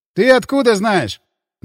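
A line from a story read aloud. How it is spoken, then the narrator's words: Snort. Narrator (Russian): хмыкнул брат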